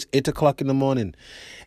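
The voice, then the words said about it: Attempted Trinidadian accent. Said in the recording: “that's my best Trini accent. ... That's the best I got.”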